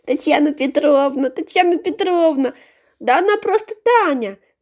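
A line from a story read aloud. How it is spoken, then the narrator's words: Girl shouting. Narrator (Russian): крикнула Митричу одна девочка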